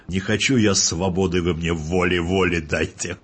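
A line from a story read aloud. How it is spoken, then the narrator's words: Shouting. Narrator (Russian): один наш шпион, замечательный шпион, его Ножкин играл, кричал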